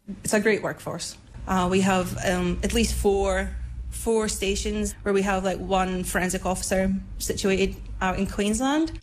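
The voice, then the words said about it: Scottish accent. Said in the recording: “You've probably detected an accent by now. ... So I'm Scottish.”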